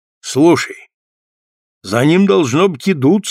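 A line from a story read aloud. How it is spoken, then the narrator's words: Plain. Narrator (Russian): сказал Джон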